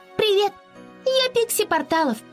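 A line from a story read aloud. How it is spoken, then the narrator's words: Squeak. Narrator (Russian): пропищала она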